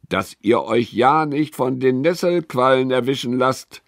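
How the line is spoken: Calling out. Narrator (German): ruft er dem Mädchen zu

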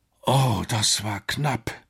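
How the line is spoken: Breathless groaning. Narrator (German): stöhnte Alex außer Atem

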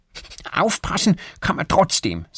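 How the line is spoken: Angry. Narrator (German): sagt Erik wütend

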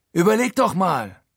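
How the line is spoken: Calling out. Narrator (German): ruft er

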